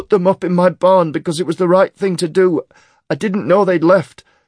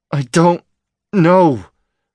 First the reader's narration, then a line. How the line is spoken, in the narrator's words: Fluke said through gritted teeth